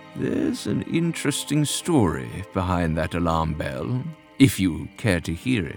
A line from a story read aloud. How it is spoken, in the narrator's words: The smile on his face twisted as he murmured